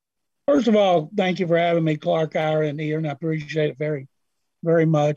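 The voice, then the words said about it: Slightly hoarse voice. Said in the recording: “I'm a little hoarse from my celebration”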